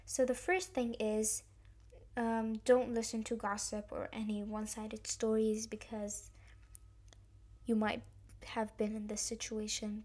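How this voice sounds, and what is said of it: Slightly raspy voice. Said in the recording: “my voice is a bit raspy,... because I'm still healing”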